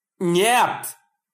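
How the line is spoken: Terrified yell. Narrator (Russian): заорал Тони в ужасе

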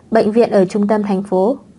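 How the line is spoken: Smiling, friendly. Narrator (Vietnamese): Tiêu Vũ mỉm cười mà nói cho cô

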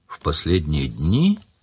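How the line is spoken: Thoughtful repetition. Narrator (Russian): задумчиво повторил Сварог

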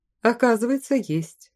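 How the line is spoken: Laughing. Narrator (Russian): рассмеялся Ракен

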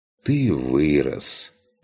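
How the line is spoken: Sighing lion. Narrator (Russian): вздохнул лев

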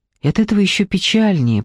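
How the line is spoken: Whisper. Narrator (Russian): прошептала Дженни

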